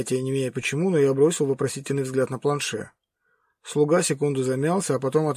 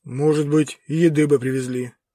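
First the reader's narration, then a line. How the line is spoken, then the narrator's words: Sad deep bass. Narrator (Russian): грустно пробасил Роджер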